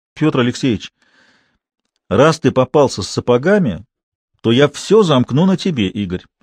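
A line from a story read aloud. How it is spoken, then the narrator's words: Stern. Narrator (Russian): строго сказал капитан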